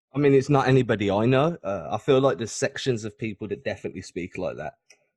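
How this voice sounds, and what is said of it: Birmingham English accent. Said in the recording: “I can tell from your accent. You're from like Birmingham, right?”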